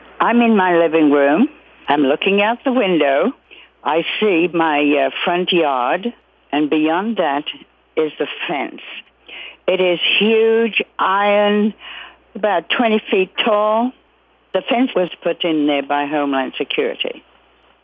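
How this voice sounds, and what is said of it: Slight British accent. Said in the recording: “she has a slight British accent”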